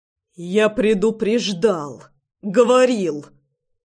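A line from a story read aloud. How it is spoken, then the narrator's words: Growling. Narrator (Russian): рычал он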